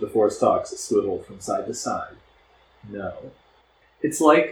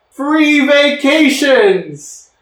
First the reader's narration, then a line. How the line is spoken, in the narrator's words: He shouted